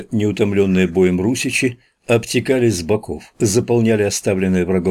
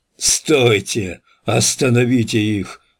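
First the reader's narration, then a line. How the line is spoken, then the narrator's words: Hoarse rasp. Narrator (Russian): прохрипел Святослав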